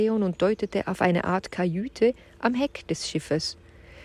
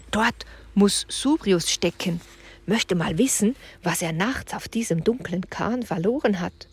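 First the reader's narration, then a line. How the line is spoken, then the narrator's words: Whispering. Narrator (German): flüsterte Julian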